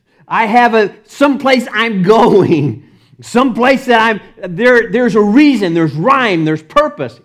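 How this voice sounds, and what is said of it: Texas accent. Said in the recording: “my Texas accent comes out”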